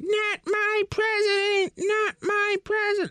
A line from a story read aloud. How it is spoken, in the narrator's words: just yelling, you know, and shouting in unison